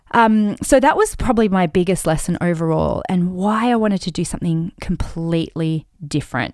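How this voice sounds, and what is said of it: Slightly croaky voice. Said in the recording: “you can probably hear in my voice I'm a little bit croaky”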